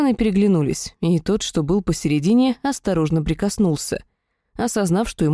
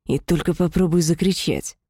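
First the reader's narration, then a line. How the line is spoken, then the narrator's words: Demonic hiss. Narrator (Russian): прошипел демон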